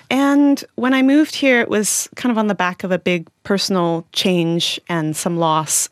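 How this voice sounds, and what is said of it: Canadian accent. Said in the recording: “You can probably hear from my accent that I'm from the Northern Hemisphere. I was born in Canada.”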